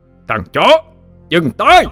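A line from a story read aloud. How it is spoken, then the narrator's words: Booming roar in chamber. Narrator (Vietnamese): Tiếng gầm vang dội trong mật thất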